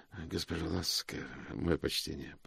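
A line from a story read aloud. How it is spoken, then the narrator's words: Muttered. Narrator (Russian): пробормотал он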